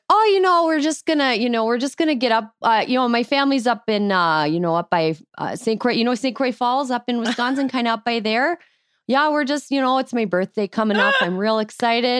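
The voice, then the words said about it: Wisconsin local dialect accent. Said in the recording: “I like reverted to my childhood accent ... speaking the local dialect”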